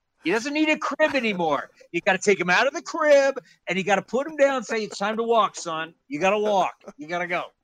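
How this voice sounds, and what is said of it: Impression of Lou Piniella. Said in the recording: “That's Johnny Gomes impersonating Lou Piniella.”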